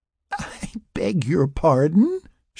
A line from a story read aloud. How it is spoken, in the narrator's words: She giggled